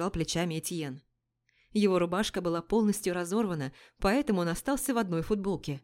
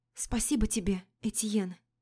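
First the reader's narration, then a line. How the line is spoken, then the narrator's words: Whisper. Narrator (Russian): прошептала Адель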